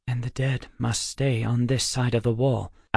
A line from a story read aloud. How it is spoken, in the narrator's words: Alex whispered